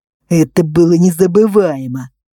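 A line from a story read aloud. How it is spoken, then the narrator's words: Through gritted teeth. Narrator (Russian): процедил парень сквозь зубы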